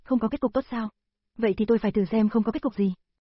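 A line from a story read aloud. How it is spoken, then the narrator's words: Very angry. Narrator (Vietnamese): Lưu Tiểu Viễn rất tức giận, nói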